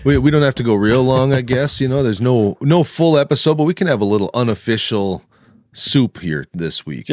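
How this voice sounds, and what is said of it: Congested voice from a cold. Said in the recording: “As you can hear by my voice, this cold I got”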